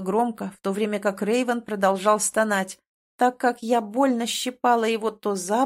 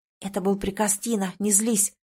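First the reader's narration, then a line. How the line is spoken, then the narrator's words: Whispered. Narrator (Russian): прошептала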